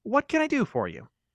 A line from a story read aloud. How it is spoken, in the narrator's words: asked sweetly